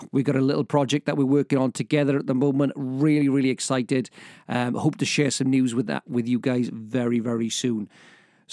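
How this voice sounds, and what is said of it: Strained, tired voice about to give out. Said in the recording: “as you can tell, my voice is about to give out ... I'm very, very tired”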